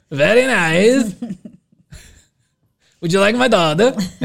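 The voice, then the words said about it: Boston accent. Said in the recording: “There I go, back into the Boston accent.”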